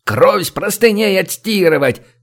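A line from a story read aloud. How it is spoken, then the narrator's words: Roaring. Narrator (Russian): взревел цыган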